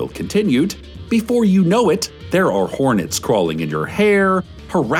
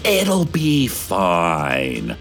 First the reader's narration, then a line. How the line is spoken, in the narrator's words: the city council hissed